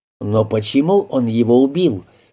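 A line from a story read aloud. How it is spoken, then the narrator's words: Plain. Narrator (Russian): спросил Генри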